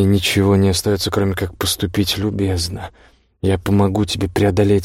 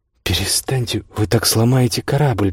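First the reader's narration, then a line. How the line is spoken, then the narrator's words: Squeak. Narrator (Russian): пискнул Джеймс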